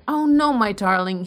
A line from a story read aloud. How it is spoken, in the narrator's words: cried, recovering his speech